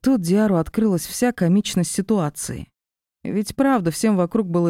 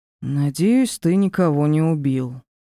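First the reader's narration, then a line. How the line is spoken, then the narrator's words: Relieved sigh. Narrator (Russian): проговорил Диар, вздохнув с откровенным облегчением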